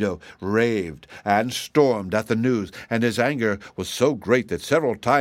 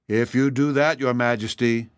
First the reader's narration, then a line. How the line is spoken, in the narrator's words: he said